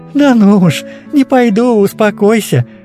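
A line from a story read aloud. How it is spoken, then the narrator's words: Happy laughing. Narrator (Russian): Смеялась Кажданова, вряд ли менее счастливая сегодня, чем сама девочка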